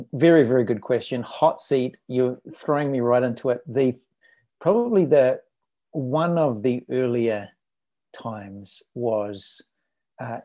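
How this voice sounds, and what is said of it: New Zealand accent. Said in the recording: “you hear a little bit of the accent there ... hails from New Zealand”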